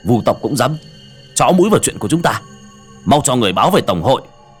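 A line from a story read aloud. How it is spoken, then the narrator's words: Angry. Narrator (Vietnamese): Tên cầm đầu tức giận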